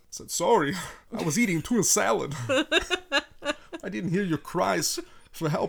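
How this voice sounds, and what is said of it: Imitates another person's voice. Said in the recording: “could do a Christopher Walken impression ... is there a Christopher Walken impersonator on board? ... That was probably your best you've ever done.”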